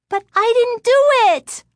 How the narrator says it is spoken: Lindy cried

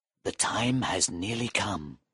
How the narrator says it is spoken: Faustus whispered

